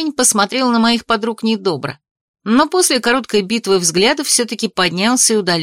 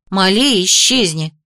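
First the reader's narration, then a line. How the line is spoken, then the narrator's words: Snorting. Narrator (Russian): фыркнула Ририан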